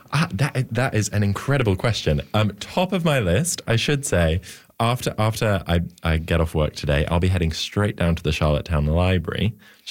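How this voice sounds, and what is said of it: British accent. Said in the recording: “I am in fact from the UK, which may come as a shock because of my accent.”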